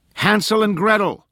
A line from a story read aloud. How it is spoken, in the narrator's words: Nora shouted